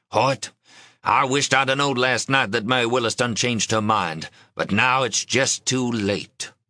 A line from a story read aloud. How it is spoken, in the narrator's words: said in a harsh voice